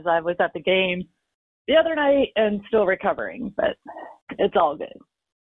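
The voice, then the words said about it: Rough, worn-out voice. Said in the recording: “Pardon my voice”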